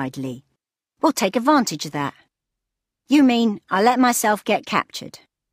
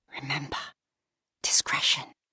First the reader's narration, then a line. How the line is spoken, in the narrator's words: whispered Cassiel in her mind